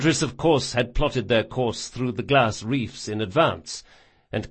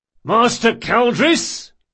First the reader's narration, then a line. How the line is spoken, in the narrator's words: he bellowed